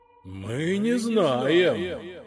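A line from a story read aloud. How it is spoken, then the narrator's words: Ghosts groaning in chorus. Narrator (Russian): хором простонали призраки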